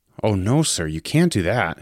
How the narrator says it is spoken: said his voice rising

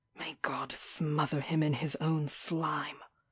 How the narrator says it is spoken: I muttered thickly

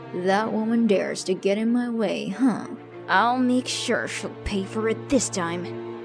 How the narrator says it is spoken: he muttered out

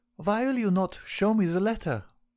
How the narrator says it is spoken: she cried

